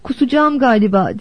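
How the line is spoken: Groaning. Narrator (Turkish): diye inledi Rose of Sharon

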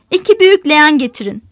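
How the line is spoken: Plain. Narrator (Turkish): dedi Bay Teo

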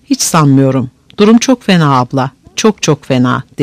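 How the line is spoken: Very low, secretive voice. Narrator (Turkish): Rahat sanki telefonda bana bir devlet sırrı veriyormuş gibi gayet alçak bir sesle

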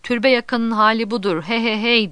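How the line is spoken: Shouting. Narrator (Turkish): diye bağırıyor

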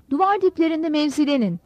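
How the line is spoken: Shouting. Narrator (Turkish): diye bağırdı

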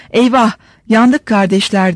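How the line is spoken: Shouted. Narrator (Turkish): diye bağırdığı duyuldu

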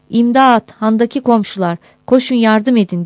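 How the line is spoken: Shouting. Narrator (Turkish): diye bağırarak

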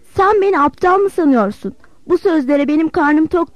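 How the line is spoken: Shouted. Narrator (Turkish): diye bağırdı

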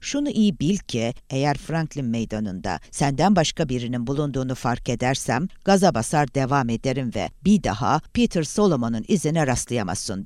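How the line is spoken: Plain. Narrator (Turkish): dedi

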